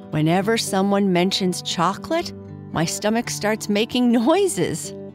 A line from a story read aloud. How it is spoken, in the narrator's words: Kai Kai said with a laugh